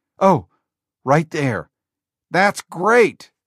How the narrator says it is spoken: Jobs yelled

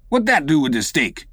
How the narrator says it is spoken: said the old black testily

